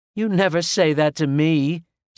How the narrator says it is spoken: snapped Mary, laughing

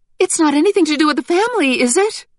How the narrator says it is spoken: Helen asked in an alarmed voice

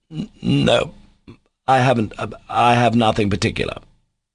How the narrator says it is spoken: Ivan answered, almost stammering

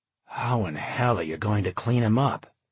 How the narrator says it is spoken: John gasped

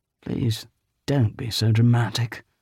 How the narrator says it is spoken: Griffin sighed

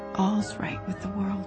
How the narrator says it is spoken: whispered Anne softly

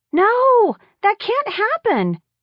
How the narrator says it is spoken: they all exclaimed

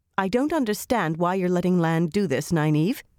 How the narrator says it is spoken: she said as firmly as she could

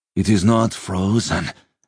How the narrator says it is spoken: Sludig gasped

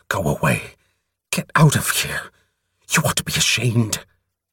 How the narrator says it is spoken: she hissed at it

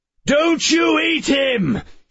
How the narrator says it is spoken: he screeched over the PA

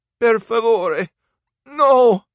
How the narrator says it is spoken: he begged

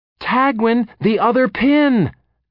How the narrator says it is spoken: Kyber howled at him

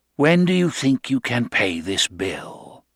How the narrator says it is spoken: He said it even kindly

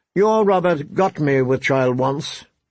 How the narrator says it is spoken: she said, her voice thick with contempt

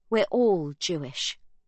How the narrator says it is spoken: Sibby says firmly, with a defiant nod of her chin

